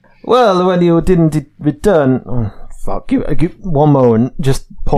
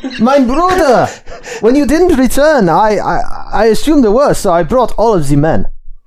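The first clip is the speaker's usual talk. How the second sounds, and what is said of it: Put-on German accent. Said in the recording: “There is a German accent.”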